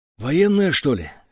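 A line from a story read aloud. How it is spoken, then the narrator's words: Hoarse question. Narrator (Russian): хрипло спросил Петро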